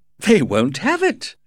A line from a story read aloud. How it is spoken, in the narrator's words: cried Lord Arthur, laughing